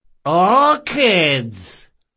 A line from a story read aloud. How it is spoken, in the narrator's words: hollered someone from a second-story window